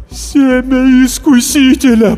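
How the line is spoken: Moan. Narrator (Russian): простонал отец Даниэль

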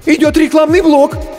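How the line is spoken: Frightened squeak. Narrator (Russian): испуганно пискнул первый ассистент

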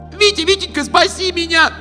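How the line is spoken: Desperate scream. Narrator (Russian): закричала она

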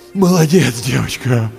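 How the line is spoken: Groaning. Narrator (Russian): простонал Андрей

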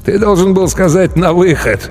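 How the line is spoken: Hoarse strained forcing. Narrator (Russian): хрипло выдавил Мьенг

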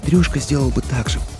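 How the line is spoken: Whisper. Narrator (Russian): прошептала

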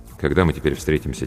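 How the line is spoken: Quiet question. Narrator (Russian): тихо спросил я

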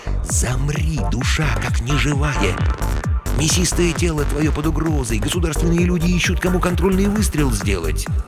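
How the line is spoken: Soulful ghostly whisper. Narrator (Russian): незримо реял дух жабы и шептал проникновенные слова

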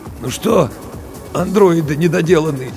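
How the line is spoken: Hoarse. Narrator (Russian): сипло сказал Букин

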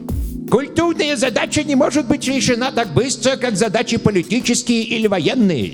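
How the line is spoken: Heavy rolled-r speech defect. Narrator (Russian): сильно картавя сказал он

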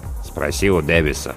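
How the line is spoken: Grumbling mutter. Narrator (Russian): буркнул помощник навигатора Сноу

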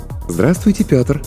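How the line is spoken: Pleasant cooing female voice. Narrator (Russian): проворковал приятный женский голос

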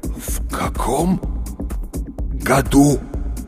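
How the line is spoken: Strained through clenched jaws. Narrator (Russian): выдавил он с усилием, сводя челюсти

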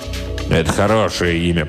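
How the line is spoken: Impatient grumble. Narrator (Russian): проворчал барон, выдавая нетерпение

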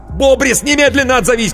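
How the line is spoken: Shouting into phone. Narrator (Russian): кричал в трубку Коровин

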